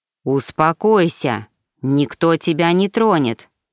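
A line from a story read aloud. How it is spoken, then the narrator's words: Growled syllable by syllable. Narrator (Russian): Прорычал я чуть ли не по слогам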